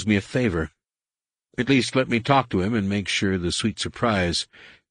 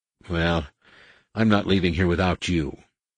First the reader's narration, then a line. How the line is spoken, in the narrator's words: Han sighed